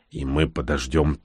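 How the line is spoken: Quiet. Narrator (Russian): тихо произнес Всеволод

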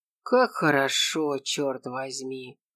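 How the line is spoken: Mutter. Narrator (Russian): пробормотал Шура

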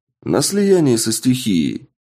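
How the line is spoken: Cheerful. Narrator (Russian): весело напомнил я

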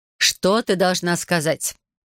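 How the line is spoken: Irritated question. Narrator (Russian): раздраженно спрашивает она

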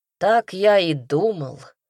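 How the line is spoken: Gloomy. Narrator (Russian): мрачно заявил Немью

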